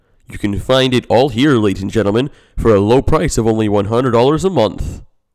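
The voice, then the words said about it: Radio announcer voice. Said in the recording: “my radio version of the ad. Hope you like my radio voice.”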